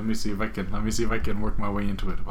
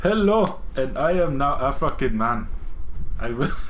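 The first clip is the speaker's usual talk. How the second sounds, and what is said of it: Put-on African accent. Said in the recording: “How about his accent? I cannot do it. ... African”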